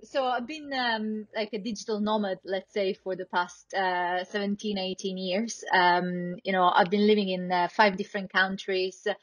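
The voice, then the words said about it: Italian accent. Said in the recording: “I'm originally Italian, so, as you can hear from my accent”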